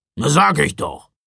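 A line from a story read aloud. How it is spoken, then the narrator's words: Gruff grumble. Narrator (German): brummte Knecht Ruprecht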